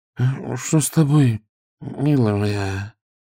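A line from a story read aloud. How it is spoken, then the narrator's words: Sleepy frightened mumble. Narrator (Russian): сонным голосом пробормотал испуганный граф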